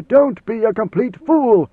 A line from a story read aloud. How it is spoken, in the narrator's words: he snapped